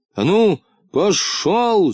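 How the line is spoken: Angry shout. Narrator (Russian): закричал Муфта сердитым голосом

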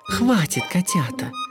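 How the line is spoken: Purring. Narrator (Russian): мурлыкнула герцогиня

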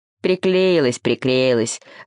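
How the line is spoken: Grumbling owl. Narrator (Russian): заворчала сова

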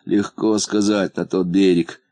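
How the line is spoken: Sighing. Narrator (Russian): вздохнул муфта

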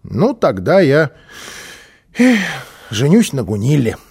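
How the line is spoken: Sighing child. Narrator (Russian): вздохнул малыш

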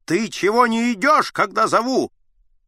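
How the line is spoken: Shouting. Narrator (Russian): Аггей на него закричал

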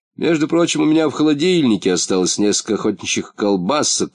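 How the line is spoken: Plain. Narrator (Russian): сказал Муфта

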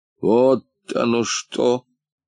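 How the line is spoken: Gloomy thought. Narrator (Russian): Уныло подумал

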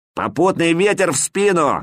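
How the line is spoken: Barked shout. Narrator (Russian): гаркнул я

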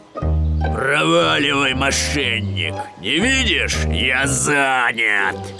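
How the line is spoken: Growling bear. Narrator (Russian): большой гризли зарычал

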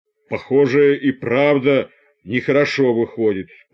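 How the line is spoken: Sudden deep bass. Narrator (Russian): пробасил вдруг усатый рабочий

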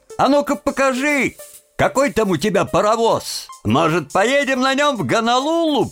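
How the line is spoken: Shouted. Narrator (Russian): Они хохотали над его ответом, и один из них крикнул

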